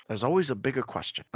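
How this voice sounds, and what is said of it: Liam Neeson impression. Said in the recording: “my best Liam Neeson impression”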